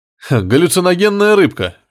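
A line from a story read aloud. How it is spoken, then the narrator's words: Cheerful conclusion. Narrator (Russian): весело заключил инспектор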